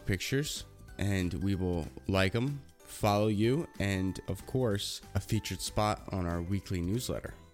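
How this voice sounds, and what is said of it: Sniffly, congested low voice. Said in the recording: “we will not be as sniffly and sneezing ... I apologize for low our voices. So probably sound awful.”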